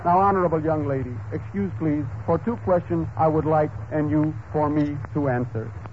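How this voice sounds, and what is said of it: Deliberately bad put-on foreign accent. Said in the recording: “Pardon my rotten accent in this accent.”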